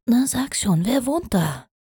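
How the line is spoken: Whispering. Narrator (German): flüsterte Feier Opal

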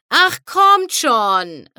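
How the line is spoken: Called toward the sky. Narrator (German): rief Rainbow in Richtung Himmel

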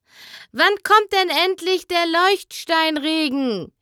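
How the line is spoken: Voice from the audience. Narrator (German): rief eine Stimme aus dem Publikum

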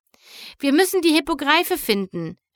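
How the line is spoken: Bold interrupting call. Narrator (German): rief Twilight mutig dazwischen

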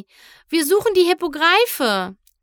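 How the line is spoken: Called out. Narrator (German): rief sie

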